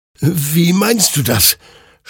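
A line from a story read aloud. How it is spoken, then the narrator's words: Stammered in confusion. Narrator (German): stammelte Hektor verwirrt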